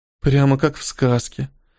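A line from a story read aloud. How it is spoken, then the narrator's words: Breathless. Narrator (Russian): выдохнула Мики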